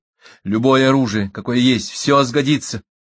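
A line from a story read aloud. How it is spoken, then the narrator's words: Assuring. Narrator (Russian): заверил Дермот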